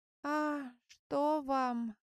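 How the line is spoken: Sickly voice. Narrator (Russian): болезненным голосом отозвался Булыга

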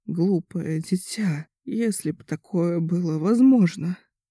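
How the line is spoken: Faint, tearful sick woman. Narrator (Russian): Чуть слышно произнесла больная, глаза ее наполнились слезами

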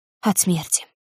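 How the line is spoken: Quiet answer. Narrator (Russian): тихо ответила она

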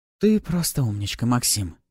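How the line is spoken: Eerie purring female voice. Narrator (Russian): Промурлыкала темная субстанция, лишь издали напоминающая женщину

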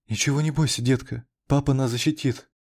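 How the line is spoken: Timid babbling mother. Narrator (Russian): Пролепетала мать

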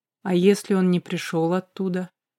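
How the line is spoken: Quiet question. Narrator (Russian): тихо спросила Ариана

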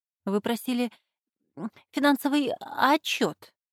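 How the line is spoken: Trembling voice. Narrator (Russian): дрожащим голосом произнесла Петти, директор экономического отдела

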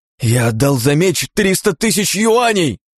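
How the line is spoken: Young man shouting. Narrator (Russian): кричал парень азиатской наружности

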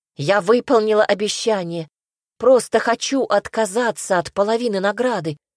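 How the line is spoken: Interrupting exclamation. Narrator (Russian): воскликнула, недослушав

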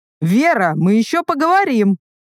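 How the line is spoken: Shout. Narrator (Russian): крикнул он

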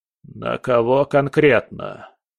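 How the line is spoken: Creaky old voice. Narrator (Russian): Проскрипел один из 10 старческим голосом

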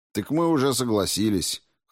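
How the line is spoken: Skeptical snort. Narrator (Russian): хмыкнул Спиранский

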